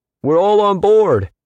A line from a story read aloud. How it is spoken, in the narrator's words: someone yelled up